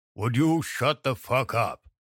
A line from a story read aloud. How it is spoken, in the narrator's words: Moses roared